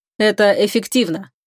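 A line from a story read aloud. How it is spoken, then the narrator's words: Cold interruption. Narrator (Russian): холодно оборвал Волков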